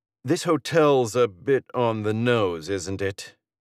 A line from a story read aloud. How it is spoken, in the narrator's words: he drawls